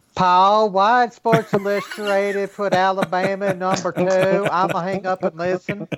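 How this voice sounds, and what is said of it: Paul Finebaum impression, attempted southern accent. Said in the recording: “that was a great impression ... Where is Paul Feinbaum? ... that northern thing going on there. That was a northern accent ... a guy in Minnesota trying to do a southern accent”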